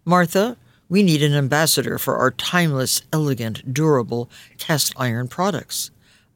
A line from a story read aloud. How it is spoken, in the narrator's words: I said